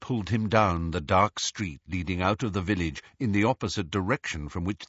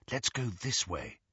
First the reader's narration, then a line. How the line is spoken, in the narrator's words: Hermione murmured